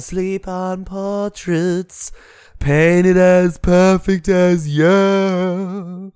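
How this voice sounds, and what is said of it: Wailing imitation of a singer. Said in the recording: “wailing about ... That was good. That was a good impression.”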